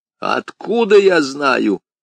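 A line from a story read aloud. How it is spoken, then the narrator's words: Sudden roar. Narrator (Russian): неожиданно взревел Берг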